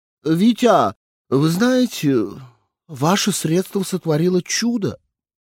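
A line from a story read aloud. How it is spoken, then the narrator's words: Exclaimed. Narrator (Russian): воскликнула она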